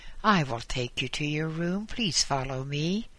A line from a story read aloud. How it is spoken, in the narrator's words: he said